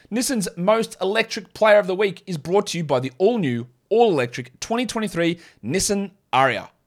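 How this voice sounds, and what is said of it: Own non-American accent. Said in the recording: “in my accent. I'm not going to use the American accent.”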